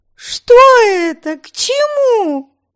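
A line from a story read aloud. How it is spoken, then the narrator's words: Yelling. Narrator (Russian): вопила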